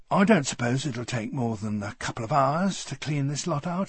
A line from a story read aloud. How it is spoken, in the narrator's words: said bitterly